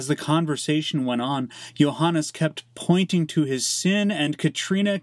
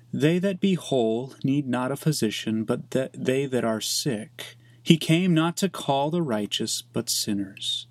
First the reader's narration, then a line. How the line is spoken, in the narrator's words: She said calmly